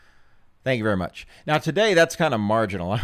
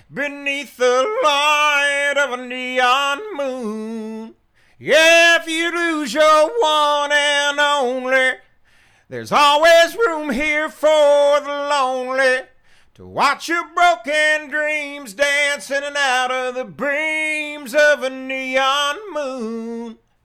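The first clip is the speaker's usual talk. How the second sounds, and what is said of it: Sung imitation of a country singer. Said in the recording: “I would say that's a marginal Ronnie Dunn impersonation today. Some days are better than others, depending on the condition of my voice”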